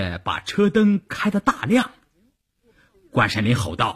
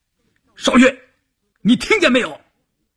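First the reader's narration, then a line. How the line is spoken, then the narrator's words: Shouting. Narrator (Chinese): 关山林喊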